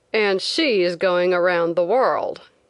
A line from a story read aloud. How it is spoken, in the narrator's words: one man said sneeringly